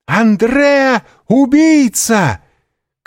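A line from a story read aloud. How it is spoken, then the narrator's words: Young woman shouting. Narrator (Russian): крикнула одна из молодых женщин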